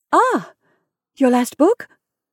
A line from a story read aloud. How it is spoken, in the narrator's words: faltered Mrs